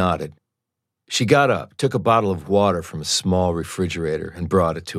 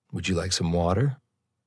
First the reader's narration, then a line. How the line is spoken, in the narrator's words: Softly, she asked